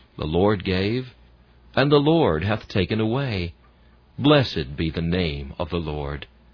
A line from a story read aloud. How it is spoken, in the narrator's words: though tears would come, she gently said